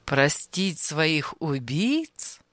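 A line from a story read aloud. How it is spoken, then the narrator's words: Laughing. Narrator (Russian): Анисим рассмеялся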